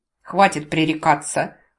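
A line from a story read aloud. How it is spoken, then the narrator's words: Muffled snap. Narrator (Russian): глухо огрызнулась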